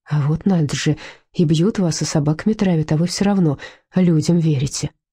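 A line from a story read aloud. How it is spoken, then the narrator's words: Sighing. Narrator (Russian): вздохнула Людмила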